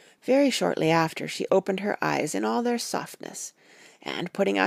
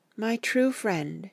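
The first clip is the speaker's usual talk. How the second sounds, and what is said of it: Faint, weak voice. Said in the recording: “in a faint voice, but with untellable pathos”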